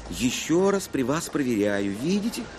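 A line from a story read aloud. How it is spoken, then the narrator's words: Plain. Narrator (Russian): Сказала кассирша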